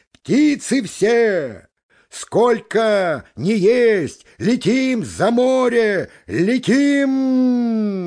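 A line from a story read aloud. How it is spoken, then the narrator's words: Gander's shout. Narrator (Russian): гусак крикнул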